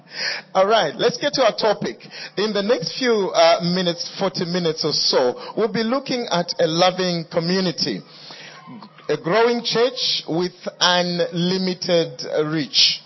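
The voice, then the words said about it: Speaker's own accent, unfamiliar pronunciation. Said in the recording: “May I apologize if you can't understand some of what I'm saying? Maybe it's my accent. ... Maybe the way you pronounce certain words is not the way I pronounce them. ... I may not sound what you're used to.”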